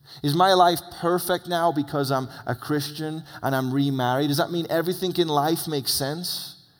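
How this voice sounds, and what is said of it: Speaks with a foreign accent. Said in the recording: “accent”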